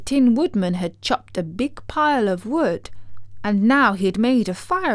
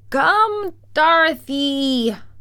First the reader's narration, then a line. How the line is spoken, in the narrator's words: cried the wizard